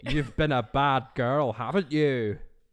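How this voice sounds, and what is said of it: Shrek cartoon character voice. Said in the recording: “do the Shrek voice”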